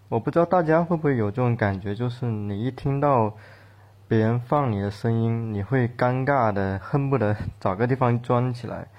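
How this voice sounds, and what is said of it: Typical Cantonese-accented Mandarin. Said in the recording (Chinese): “我的口音是很典型的广东口音嘛，就是说粤语会有一种吐字不清的感觉”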